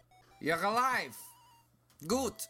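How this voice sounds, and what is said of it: Slight German accent. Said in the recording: “She had a slight accent, maybe German?”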